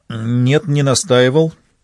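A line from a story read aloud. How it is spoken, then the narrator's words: Uncertain. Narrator (Russian): неуверенно ответила Евгения Алексеевна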